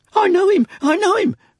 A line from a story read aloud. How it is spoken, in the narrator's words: cried Barnaby